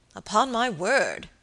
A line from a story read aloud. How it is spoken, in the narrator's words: exclaimed the baronet